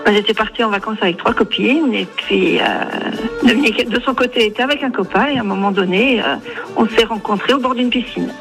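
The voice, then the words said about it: Strong Franche-Comté French accent. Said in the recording (French): “l'accent franc-comtois ... il est un peu... ... il est bien marqué, oui ... t'avais ton accent franc-comtois”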